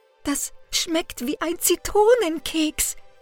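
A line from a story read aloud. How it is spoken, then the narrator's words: Gasping. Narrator (German): japste er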